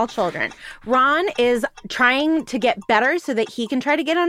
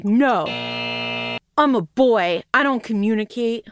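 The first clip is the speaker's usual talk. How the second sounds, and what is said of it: Imitates a boy character's voice. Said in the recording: “your Harry imitation”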